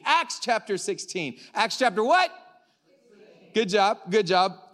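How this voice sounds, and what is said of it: Loud, excited yelling. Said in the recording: “I don't know why I'm yelling. I'm just like really excited”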